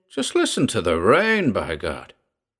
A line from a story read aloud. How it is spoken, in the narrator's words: exclaimed Sir Edward